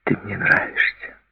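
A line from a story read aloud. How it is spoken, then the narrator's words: Whisper. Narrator (Russian): Она шепнула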